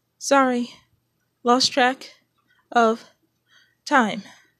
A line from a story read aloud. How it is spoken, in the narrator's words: she panted